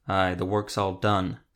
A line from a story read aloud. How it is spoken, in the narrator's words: Zevo growled